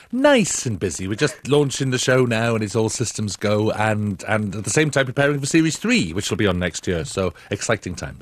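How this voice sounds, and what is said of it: Slight Welsh accent. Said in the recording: “A hint of a Welsh accent there”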